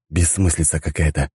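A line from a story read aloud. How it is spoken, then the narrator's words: Muttering. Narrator (Russian): пробормотал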